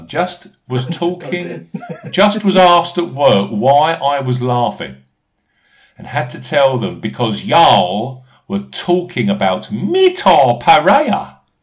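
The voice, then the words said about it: Put-on Southern American accent. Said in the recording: “a southern states American accent”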